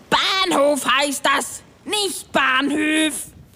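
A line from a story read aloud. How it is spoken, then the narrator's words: Blustering. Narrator (German): polterte Klaus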